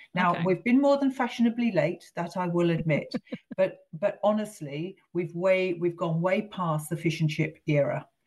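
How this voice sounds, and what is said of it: British English accent. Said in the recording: “someone with this accent”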